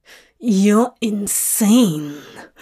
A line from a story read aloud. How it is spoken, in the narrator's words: Crowley hisses